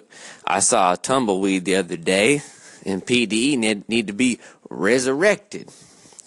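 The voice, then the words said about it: Put-on light Southern accent. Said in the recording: “I just went into a little southern accent”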